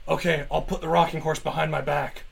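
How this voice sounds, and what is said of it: Loud stage whisper. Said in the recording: “You guys are whispering awfully loudly.”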